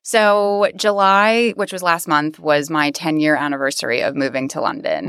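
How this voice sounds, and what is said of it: American accent. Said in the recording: “your American accent, so you're not British.”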